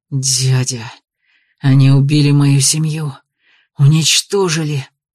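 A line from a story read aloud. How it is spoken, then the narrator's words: Hissed in strange voice. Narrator (Russian): прошипел не своим голосом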